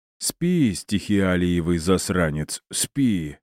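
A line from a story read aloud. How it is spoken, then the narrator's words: Droning close by ear. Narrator (Russian): прогудела над ухом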